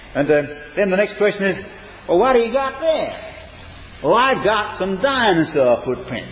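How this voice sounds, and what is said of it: Put-on American accent. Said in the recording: “I hope if this videotape ever gets to America, they will excuse my accent.”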